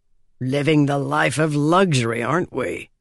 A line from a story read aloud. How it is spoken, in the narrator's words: grumbled Strauss